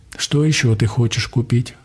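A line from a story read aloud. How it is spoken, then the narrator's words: Plain. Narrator (Russian): спросила Донь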